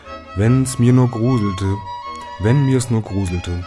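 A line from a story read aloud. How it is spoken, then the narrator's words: Very loud. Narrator (German): sprach er wieder ganz laut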